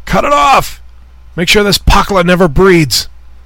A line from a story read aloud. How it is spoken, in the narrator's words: one of them yell